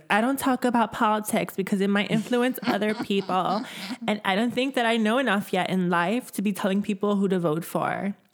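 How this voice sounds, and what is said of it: Imitates another person's voice. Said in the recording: “your Taylor Swift is amazing. Thanks. It's really spot on. ... It's like my go-to white girl voice.”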